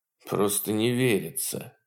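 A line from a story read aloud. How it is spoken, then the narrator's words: Mumbled. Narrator (Russian): пробормотал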